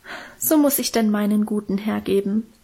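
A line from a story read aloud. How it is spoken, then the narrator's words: Moved, self-pitying sigh. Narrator (German): seufzte Minchen und schien selber gerührt von ihrer Opferbereitschaft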